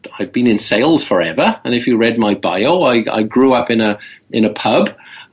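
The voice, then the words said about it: Speaks with a noticeable accent. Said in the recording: “I'm also sort of a salesperson with an accent, so I stand out a little bit”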